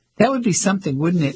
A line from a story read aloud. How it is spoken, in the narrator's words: He laughed